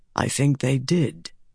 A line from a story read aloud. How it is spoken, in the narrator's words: Tam said softly